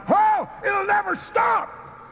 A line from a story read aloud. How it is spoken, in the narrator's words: the petrified young Indian cried